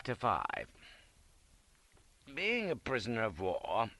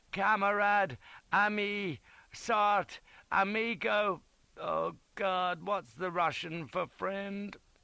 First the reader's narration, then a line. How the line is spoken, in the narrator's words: gasping like a salmon on the bank, babbling weakly